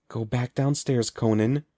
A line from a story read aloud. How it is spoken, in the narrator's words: pleaded silently